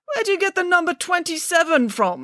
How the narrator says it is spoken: spluttered Mr

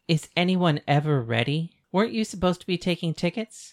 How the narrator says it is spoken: Paris asked

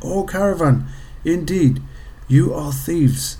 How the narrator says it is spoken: The soldiers cried

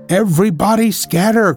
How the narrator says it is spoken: cried Professor Bryce

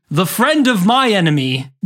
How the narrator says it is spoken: the uncle roared

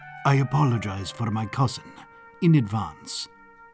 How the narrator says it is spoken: He whispered

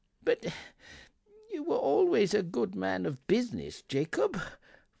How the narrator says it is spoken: faltered Scrooge

